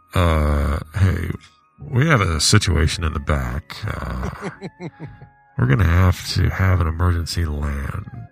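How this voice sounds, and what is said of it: Impression of an airline pilot. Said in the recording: “The pilot comes on the radio and says, here, I'm going to do an impression.”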